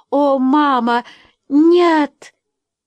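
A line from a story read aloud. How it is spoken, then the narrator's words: Sobbing. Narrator (Russian): Эдвина, обе они рыдали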